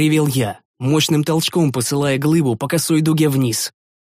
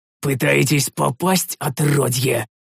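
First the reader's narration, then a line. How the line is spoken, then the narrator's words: Growled. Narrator (Russian): Зарычал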